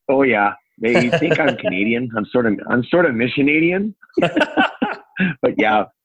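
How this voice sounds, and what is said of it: Northern Upper Peninsula Michigan accent. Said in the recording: “your accent down there? Your northern, your Upper Peninsula accent? ... my vowels give me away”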